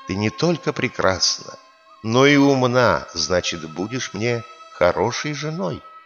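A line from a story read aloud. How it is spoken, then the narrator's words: Young man, tender voice. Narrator (Russian): юноша говорит ласковым голосом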